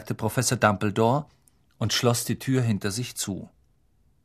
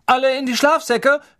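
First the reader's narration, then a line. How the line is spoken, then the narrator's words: Calling out. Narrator (German): rief Percy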